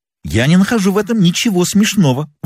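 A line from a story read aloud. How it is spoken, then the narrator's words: Indignant flushed exclamation. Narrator (Russian): воскликнул нам клиент, и кровь бросилась ему в голову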